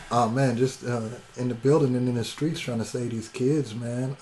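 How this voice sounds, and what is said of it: Slightly hoarse voice. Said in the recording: “my voice got a little hoarse.”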